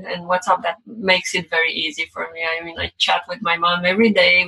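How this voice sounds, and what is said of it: Romanian accent. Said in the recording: “I'm not from the US. I guess you can guess from my accent. So I'm from Romania originally”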